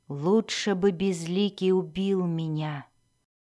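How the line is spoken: Whisper. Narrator (Russian): прошептал он

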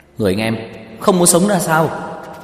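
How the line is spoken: Shocked shout. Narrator (Vietnamese): Tiêu Dật Vân trợn mắt há mồm hét lên

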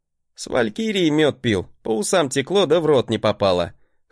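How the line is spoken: Chuckling. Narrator (Russian): хохотнул я

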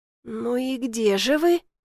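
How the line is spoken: Muttering. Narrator (Russian): бормочу

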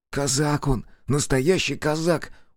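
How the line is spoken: Convinced hiss. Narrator (Russian): убежденно прошипел Воробей

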